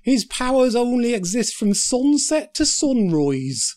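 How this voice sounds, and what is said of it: Attempted Dutch accent. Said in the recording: “That's his attempt at a Dutch accent”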